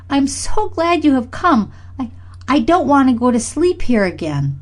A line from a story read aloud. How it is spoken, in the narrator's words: cried Freddie